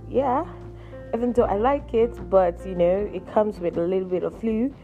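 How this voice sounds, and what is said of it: Slightly hoarse voice. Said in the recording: “hear it from my voice is a bit hoarse”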